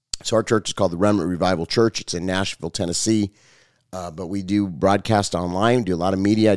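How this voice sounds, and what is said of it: Hoarse voice from a cold. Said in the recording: “my voice is hoarse ... this cold that like never goes away”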